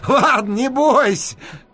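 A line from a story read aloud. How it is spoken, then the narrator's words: Parting shout. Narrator (Russian): крикнул я напоследок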